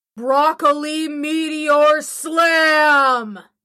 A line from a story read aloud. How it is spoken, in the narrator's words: Before I blacked out, I shouted